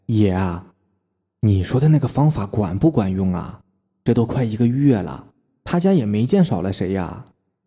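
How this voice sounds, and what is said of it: Quiet, hushed speaking voice. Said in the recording (Chinese): “咳嗽了一声，脖子往前伸，小声说了起来”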